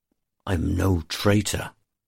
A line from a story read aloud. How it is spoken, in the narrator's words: Evendor snarls